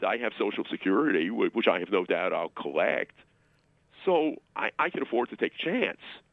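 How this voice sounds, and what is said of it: Brooklyn accent. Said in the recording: “another Brooklyn accent”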